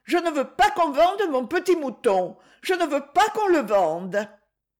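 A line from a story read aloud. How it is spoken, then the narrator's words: Exclaimed. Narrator (French): s'écria Donna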